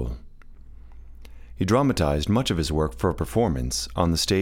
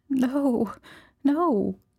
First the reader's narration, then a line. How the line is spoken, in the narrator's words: she sobbed